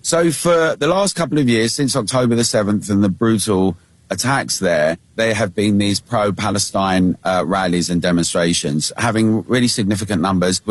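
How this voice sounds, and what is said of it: British accent. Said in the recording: “it's a bit of a British accent, he sounds like Mick Jagger... I think he sounds more like Ricky Gervais”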